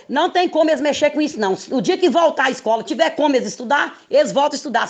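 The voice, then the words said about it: Brazilian Minas Gerais accent. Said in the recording (Portuguese): “sotaque ... agora é mineiro ... aquela esticada que é bem mineira também ficou”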